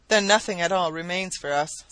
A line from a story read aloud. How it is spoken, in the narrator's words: sighed Sir John, downcast